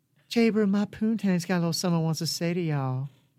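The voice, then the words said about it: Cutesy country girl accent. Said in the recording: “a little country accent ... give me the country girl ... it's a country girl accent. Cute thing.”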